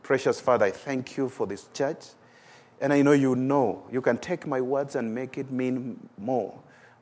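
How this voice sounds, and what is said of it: Strong accent, hard to follow. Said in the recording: “my accent stands in the way of people hearing what you're saying”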